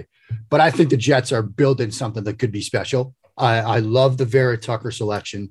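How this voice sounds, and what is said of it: New England accent. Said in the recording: “I am a lifelong Patriots fan. The accent gives it away.”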